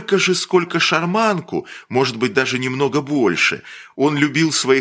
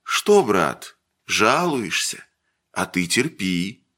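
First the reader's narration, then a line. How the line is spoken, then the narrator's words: Tender whisper. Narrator (Russian): Ладышкин шептал ласково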